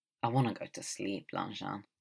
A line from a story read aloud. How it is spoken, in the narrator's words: Wei Ying leans against the doorway and mumbles